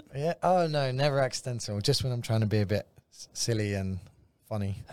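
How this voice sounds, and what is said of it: London English accent. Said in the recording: “you grew up in London ... he has a really cool accent.”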